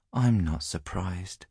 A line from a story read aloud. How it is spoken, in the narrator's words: she said gently